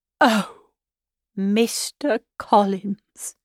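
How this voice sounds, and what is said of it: Doleful, mournful voice. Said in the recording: “In a doleful voice”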